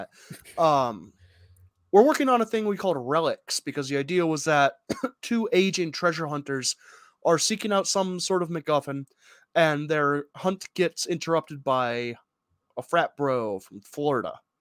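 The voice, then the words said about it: Congested, stuffed-up voice. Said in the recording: “I am stuffed up on allergy medication, so if my voice sounds a little congesty or if I sniffle a lot”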